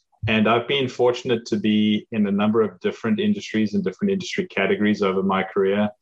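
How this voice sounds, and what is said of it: South African accent. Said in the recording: “as you can probably tell from my accent, I didn't grow up in the US. I grew up in South Africa.”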